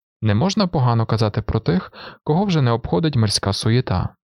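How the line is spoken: Muttering. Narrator (Ukrainian): пробурмотів він

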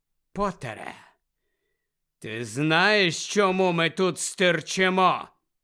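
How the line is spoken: Menacing question. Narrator (Ukrainian): запитав Снейп погрозливим голосом

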